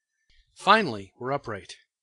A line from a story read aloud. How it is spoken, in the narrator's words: I exclaimed